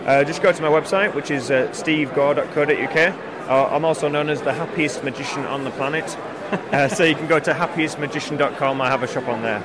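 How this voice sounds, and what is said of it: Northern English Yorkshire accent. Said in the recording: “From your accent, I'm gathering that you're somewhere around Aberdeen? ... Glasgow? ... We're in Yorkshire. ... That's why I sound a little bit like Game of Thrones. ... I thought you had more of a Scottish than an English accent.”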